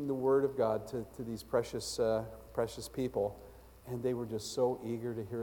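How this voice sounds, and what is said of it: Usual voice. Nothing is said of it.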